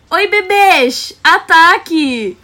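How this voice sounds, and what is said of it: Exaggerated Rio de Janeiro accent. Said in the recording (Portuguese): “eu podia melhorar nessa entonação, né? ... faz um sotaquezão do Rio”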